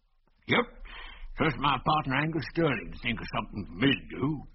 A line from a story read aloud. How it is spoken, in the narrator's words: continued the old man in a wheezy voice